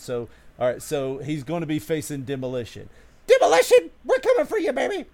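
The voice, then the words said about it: Imitates another person's voice, wrestling promo. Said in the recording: “my impersonation of Jim the Anvil Neidhart ... It's horrible. It's very bad ... It's bad, I know”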